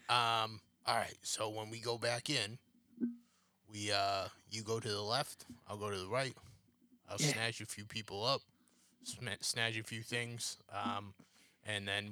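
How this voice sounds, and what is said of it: Whispering. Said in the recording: “I'm whispering. They can't hear me.”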